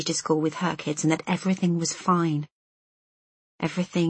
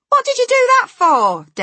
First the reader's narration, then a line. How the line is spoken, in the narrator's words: Des yelled